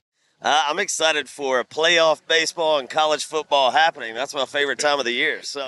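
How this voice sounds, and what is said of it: Mild Southern accent. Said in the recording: “you can hear that he has a relatively mild version of the Southern accent as well”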